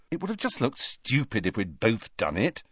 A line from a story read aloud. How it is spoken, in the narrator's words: said Harry irritably